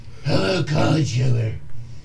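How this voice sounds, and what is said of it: Scary, bat-like voice. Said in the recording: “It's too scary, I sound like a bat.”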